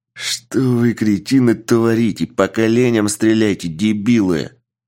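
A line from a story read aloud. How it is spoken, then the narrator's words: Growled. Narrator (Russian): Прорычал босс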